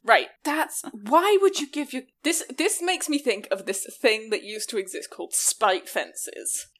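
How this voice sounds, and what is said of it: Regional English accent, soft T's. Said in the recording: “that's my accent... I pronounce very soft T's... The region of England that I'm from”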